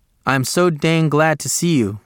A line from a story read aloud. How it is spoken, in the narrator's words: said